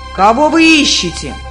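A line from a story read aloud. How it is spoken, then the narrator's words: Giant shouting. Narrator (Russian): великан закричал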